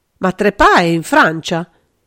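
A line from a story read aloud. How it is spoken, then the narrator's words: Desperate exclamation. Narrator (Italian): esclamò aggrappandosi disperatamente a quel fatto che riteneva sicuro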